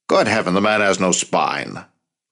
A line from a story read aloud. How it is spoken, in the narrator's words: Roosevelt snapped